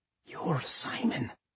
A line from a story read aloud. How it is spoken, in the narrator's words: he breathed